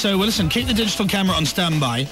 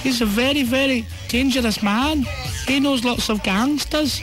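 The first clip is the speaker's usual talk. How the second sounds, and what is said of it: Bad put-on Scottish accent. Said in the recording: “that's the worst Scottish accent in the world”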